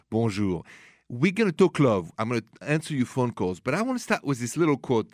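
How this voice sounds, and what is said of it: French accent. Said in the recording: “The accent is French, français”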